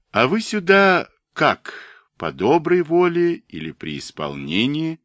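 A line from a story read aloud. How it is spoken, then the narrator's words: Laughing. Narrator (Russian): Андрей Иванович рассмеялся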